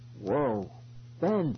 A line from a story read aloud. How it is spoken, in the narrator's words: gasped